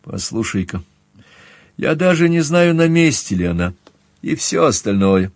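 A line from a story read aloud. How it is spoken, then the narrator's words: Sighing. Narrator (Russian): я вздохнул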